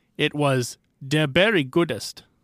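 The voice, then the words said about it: Put-on accent. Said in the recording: “my accent”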